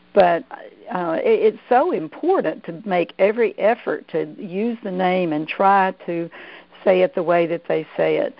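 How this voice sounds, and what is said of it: Southern US Georgia accent. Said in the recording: “being a Southern girl from Georgia, it's my Southern accent here”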